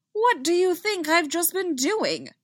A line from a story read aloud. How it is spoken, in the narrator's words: the Quarren spat